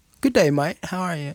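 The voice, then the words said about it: Put-on British accent. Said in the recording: “I might even go home with a British accent ... Can you do it?”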